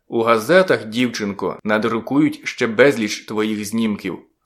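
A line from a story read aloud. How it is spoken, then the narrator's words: Plain. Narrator (Ukrainian): сказав я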